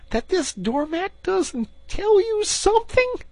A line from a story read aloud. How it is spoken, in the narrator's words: cried the excited Rat